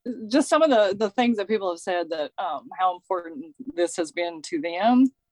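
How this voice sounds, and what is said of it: Teary, emotional voice. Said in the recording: “I might get a little teary-eyed”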